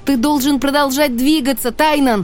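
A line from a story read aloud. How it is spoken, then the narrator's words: Shouting. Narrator (Russian): крикнула я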